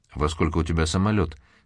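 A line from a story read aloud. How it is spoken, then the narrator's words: Plain. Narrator (Russian): спросил Александра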